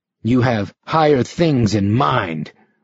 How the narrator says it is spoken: Rick said savagely

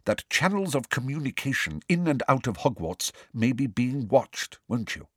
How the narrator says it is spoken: she said quickly and quietly

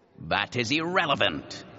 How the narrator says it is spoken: he said irritably

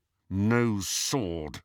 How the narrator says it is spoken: said Harry through gritted teeth

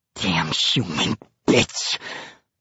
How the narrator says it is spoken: mutters

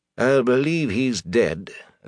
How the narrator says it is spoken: the innkeeper said slowly

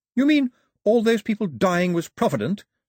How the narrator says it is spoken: said Daphne sharply

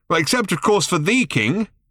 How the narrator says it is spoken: shouted Ford

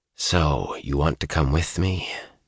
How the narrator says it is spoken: Rand said softly

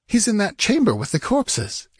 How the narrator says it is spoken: exclaimed Murillo

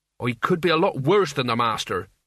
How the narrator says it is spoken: said Mort evenly

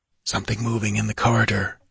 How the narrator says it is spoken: hissed the Pict

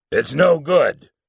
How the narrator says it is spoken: Morrison roared

